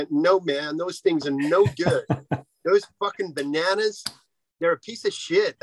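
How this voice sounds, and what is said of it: Put-on American accent. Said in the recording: “if it's an American accent”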